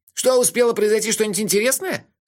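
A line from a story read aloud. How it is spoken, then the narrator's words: Very loud question. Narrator (Russian): очень громко спросил он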